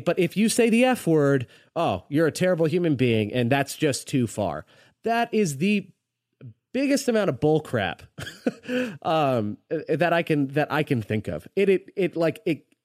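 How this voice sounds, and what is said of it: Angry, heated voice. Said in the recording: “you can hear it in my voice. Like, I'm boiling right now”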